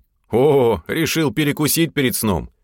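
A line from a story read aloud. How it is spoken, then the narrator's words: Chuckling. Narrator (Russian): хохотнул я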